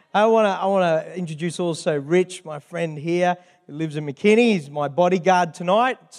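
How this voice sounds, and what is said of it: Australian accent. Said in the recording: “Who likes the Australian accent? I don't think I have an accent”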